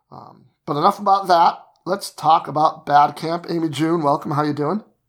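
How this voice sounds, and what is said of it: Gravelly, slightly rough voice. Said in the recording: “apologize for my voice a little bit. It's a little more gravelly than usual. I've been fighting this crazy dry cough thing ... my voice sounds a little bit funny”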